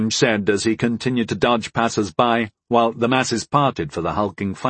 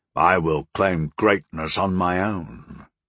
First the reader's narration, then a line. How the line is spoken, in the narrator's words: the gladiator replied gruffly